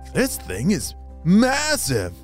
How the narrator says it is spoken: he exclaimed

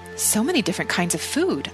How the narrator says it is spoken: I exclaimed

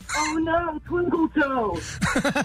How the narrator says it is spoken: my mom comes screaming out of the bleachers

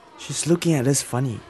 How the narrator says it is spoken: Weishin whispered

